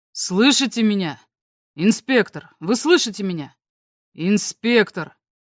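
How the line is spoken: Too loud. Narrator (Russian): Он говорил слишком громко

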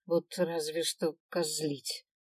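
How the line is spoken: Grumbling. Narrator (Russian): проворчал Свен

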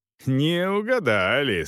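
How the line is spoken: Laughing. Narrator (Russian): смеялся Волков

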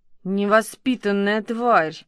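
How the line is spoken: Groaning. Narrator (Russian): простонал он

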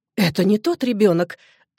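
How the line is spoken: Frightened exclamation. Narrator (Russian): с испугом в голосе воскликнула

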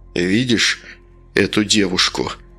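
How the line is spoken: Quiet, sad, hopeless. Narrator (Russian): тихо сказал он, и в его голосе Алена впервые услышала нотки грусти и даже какой-то безысходной тоски

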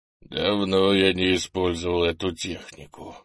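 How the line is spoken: Muffled, pained voice. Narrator (Russian): глухо сказал Крис, приходя в себя от жуткой боли

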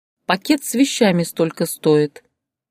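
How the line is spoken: Calm young woman. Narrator (Russian): спокойно ответила молодая женщина

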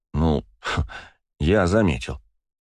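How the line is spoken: Wry snort. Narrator (Russian): хмыкнул Макс

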